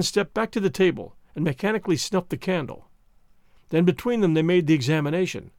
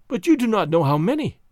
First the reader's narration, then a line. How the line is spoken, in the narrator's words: she objected desperately